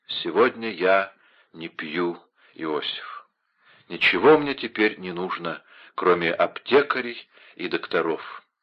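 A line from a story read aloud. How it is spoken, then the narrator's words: Muttering. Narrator (Russian): Вольфганг пробормотал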